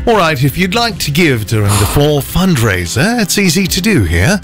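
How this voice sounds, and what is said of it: Put-on English accent. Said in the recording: “can also do an English accent.”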